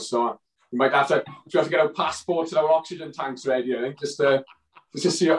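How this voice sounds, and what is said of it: Regional British accent. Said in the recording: “this dodgy accent”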